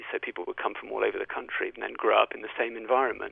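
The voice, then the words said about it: British RP accent. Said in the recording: “this RP accent, and that's why I've got it”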